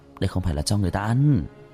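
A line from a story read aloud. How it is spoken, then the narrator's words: Furtive low voice. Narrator (Vietnamese): Văn Tài lén nhìn xung quanh nhỏ giọng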